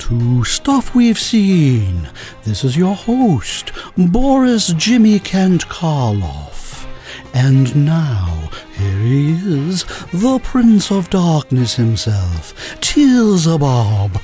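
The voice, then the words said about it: Creepy horror-host voice. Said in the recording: “I don't have a creepy voice ... I love a great creepy voice ... it's my Boris Karloff.”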